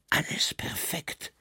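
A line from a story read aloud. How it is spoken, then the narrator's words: Breathed softly. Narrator (German): hauchte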